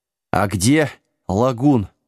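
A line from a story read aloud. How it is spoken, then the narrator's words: Hoarse wheeze while collapsing. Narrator (Russian): просипел ученик-чародея, без чувств падая на песок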